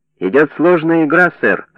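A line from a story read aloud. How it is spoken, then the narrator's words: Laughing. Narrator (Russian): рассмеялся Стал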